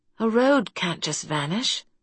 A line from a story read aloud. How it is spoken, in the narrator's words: she muttered